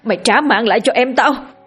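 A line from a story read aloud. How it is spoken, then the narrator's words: Frantic yell. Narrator (Vietnamese): Có một tên trong đó như phát điên, hét lớn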